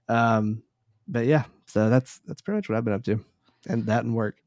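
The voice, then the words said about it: Slightly hoarse, lower-sounding voice. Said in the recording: “losing my voice ... It's still a little off, I feel like ... Makes you sound like a man, though”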